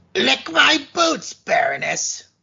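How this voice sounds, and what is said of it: Poor imitation of a cartoon villain. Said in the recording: “God, that was horrible. ... that crappy imitation”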